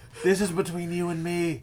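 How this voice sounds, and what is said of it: Stage whisper. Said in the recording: “This is called stage whispering ... We're stage whispering.”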